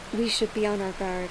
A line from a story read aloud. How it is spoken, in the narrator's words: Bree whispers to everyone